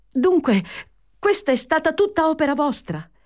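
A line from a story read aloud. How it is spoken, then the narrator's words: Exclamation. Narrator (Italian): esclamò Fanny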